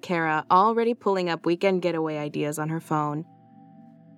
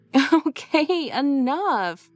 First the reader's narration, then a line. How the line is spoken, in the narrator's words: laughed Lacey